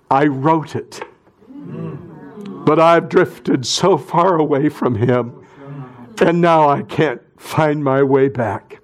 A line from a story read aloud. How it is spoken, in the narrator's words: In a broken voice, he said